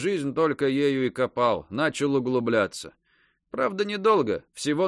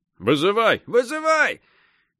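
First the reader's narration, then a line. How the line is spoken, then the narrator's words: Tired group shouting. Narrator (Russian): все накопались, устали, раскором закричали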